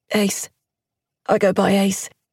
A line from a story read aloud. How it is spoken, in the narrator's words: managed at last, wheezing